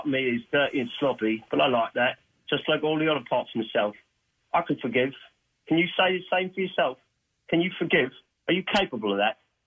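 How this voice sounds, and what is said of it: Put-on Cockney East London accent. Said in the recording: “I think he's a Brit. ... a Brit. From London ... That accent was definitely like Cockney-style East London”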